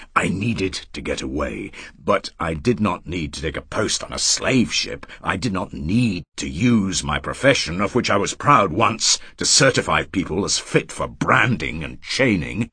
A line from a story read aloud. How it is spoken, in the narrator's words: he said harshly